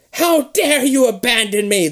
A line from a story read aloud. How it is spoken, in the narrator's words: the witch shrieks